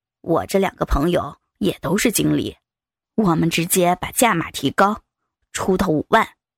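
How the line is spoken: Lowered voice. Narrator (Chinese): 陈经理声音压更低

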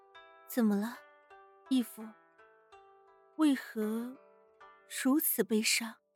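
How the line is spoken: Gentle voice. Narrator (Chinese): 一个温柔的声音响起

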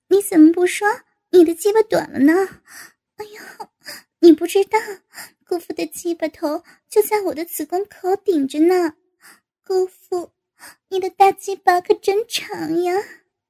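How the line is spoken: Laughing. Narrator (Chinese): 高峰笑道

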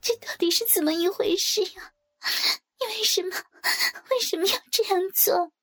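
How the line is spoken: Crying. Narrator (Chinese): 小金则是哭着说

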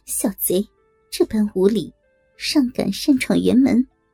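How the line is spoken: Laughing scold. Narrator (Chinese): 夫人笑着骂道

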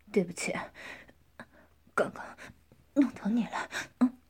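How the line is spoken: Calmer, softening. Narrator (Chinese): 陈斌情绪开始缓和了，说

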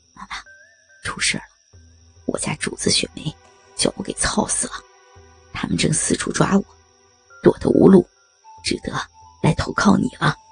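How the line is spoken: Low voice. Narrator (Chinese): 杨三 对常妈妈低声说道

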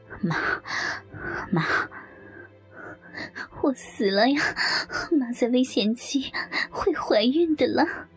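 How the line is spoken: Panting, slow calling. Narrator (Chinese): 阿辉用力地喘着气，口中缓缓地叫着

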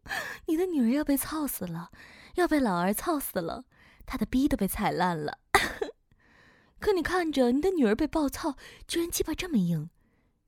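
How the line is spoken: Cursing with wild laughter. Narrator (Chinese): 狗子 疯狂的笑骂

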